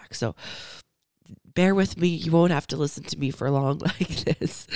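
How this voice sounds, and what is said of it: Weakened, hoarse voice. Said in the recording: “please excuse my voice ... just getting my voice back”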